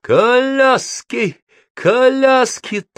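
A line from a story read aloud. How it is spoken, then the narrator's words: High, shrill shouting. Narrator (Russian): тонким пронзительным голосом принимается кричать он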